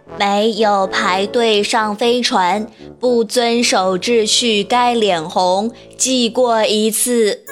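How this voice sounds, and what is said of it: Robotic machine-like voice. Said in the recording (Chinese): “用机器的声音说”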